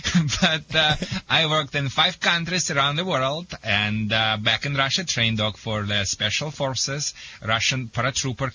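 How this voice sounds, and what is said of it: Russian accent. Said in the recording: “sorry first for my accent... I am originally from the Soviet Union”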